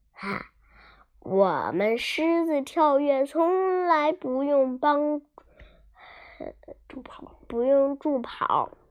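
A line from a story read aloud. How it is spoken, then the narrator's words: Smiling, lion. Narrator (Chinese): 狮子笑了笑说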